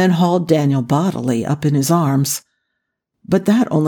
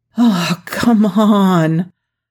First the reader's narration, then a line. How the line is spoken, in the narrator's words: Jack groaned